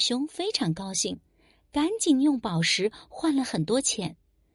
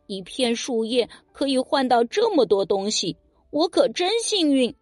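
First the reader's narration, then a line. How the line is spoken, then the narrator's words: Laughing. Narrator (Chinese): 大熊笑着说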